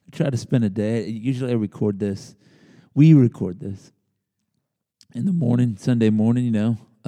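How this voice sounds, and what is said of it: Rough, strained voice. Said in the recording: “My voice is a little rough. ... I try to give my voice a little chance to rest, and this is what you got.”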